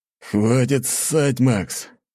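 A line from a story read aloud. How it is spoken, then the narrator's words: Sighing. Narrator (Russian): вздохнул Василий Венедиктович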